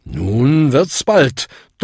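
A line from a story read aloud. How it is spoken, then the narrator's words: Thundering voice. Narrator (German): donnerte Bung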